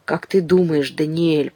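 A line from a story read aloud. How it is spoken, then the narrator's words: Whisper. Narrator (Russian): прошептал Мишель кузену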